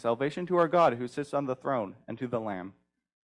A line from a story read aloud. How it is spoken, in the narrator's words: they cried out with a loud voice, saying